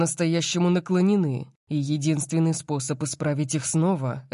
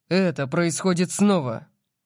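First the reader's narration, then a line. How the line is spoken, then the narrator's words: Growling. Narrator (Russian): прорычал я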